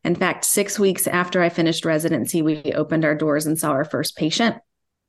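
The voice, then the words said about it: Southern Alabama accent. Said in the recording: “I am an Alabama native, which some people can pick up right away with my accent and some people can't.”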